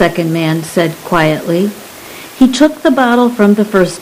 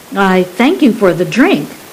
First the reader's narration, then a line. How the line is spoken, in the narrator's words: Saran said